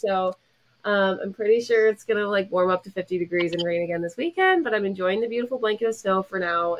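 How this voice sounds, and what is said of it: Congested, sick-sounding voice. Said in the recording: “I've just been sick for like literally a month, over a month. And if that's why I sound weird, it's just dealing with the aftermath of that ... makes me take for granted being able to breathe through my nose”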